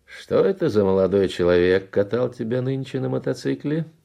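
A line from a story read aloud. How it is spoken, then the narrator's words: Cheerful inquiry. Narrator (Russian): весело осведомился Раполос Кунчинос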